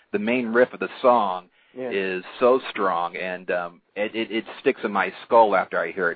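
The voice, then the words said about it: Good radio voice. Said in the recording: “he's got a good radio voice... Yeah, he's got a good radio voice.”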